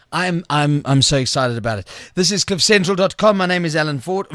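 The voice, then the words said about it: Croaky, hoarse throat. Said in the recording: “I've got a frog in my throat.”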